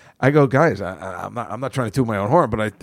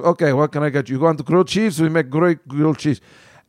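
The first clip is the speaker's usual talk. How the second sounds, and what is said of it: Put-on accent imitating a waiter. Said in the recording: “I think I hit that accent out of the park. I mean, the guy talked exactly.”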